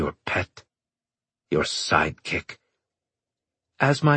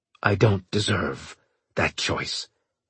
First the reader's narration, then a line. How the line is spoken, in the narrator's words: he said bitterly